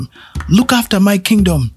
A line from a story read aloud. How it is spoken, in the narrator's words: he shouted back to Bukuku the gatekeeper